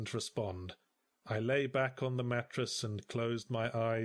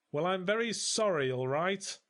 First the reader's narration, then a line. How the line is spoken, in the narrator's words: snapped